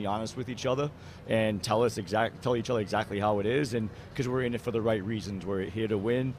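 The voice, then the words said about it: Thick Massachusetts accent. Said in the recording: “with my accent, I'm from Massachusetts, so you know, it definitely comes on a little thicker sometimes”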